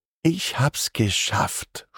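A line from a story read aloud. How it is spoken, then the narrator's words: Soft purr. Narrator (German): schnurrt sie leise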